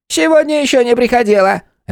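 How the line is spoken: Sharp reply. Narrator (Russian): резко ответила

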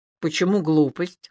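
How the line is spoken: Amused snort. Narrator (Russian): хмыкнул Илья

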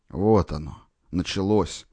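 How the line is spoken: Dejected voice. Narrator (Russian): подавленным голосом произнес Шелугин

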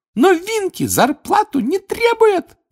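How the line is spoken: Squeak. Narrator (Russian): пропищала она

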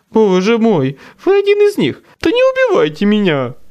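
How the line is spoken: Frightened babbling. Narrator (Russian): пролепетал

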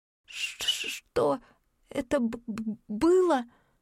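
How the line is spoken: Nervous stutter. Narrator (Russian): От волнения я начала заикаться

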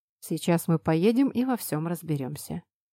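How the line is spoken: Calm. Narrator (Russian): спокойно произнес Артем

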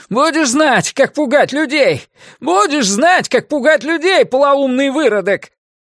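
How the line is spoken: Hysterical shout. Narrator (Russian): Один из них истерично крикнул через плечо

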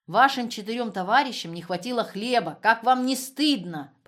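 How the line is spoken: Admonishing. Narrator (Russian): попытался увещевать их Лаптев

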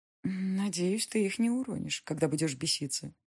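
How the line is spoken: Muttered. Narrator (Russian): пробормотала я

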